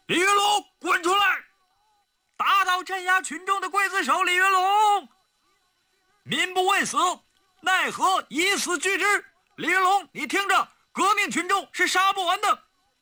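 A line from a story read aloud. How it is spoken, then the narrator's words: Shouting. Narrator (Chinese): 有人在大喊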